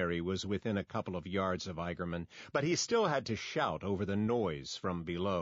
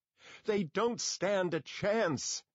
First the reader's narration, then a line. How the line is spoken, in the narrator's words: Ashbury hollered